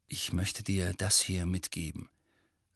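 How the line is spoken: Soft speech. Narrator (German): sagte er leise

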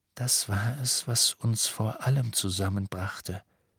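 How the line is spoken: Soft. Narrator (German): sagte er leise

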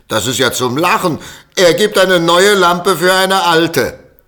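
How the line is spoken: Children shouting mockingly. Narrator (German): die Kinder schrien

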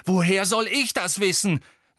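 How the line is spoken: Bellowed. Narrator (German): brüllte Harry

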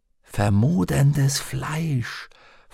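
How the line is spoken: Whisper. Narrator (German): flüsterte Lyra

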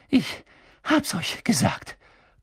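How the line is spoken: Panting. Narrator (German): keuchte Hermine und griff sich an die Seite, wo sie ein Stechen spürte

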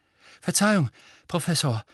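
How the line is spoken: Panting. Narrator (German): keuchte er

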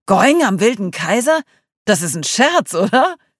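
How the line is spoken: Laughing. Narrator (German): lachte

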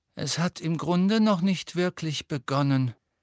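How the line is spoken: Gloomy sigh. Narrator (German): seufzte Hermine düster

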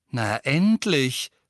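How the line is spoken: Calling out. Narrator (German): rief Tonks

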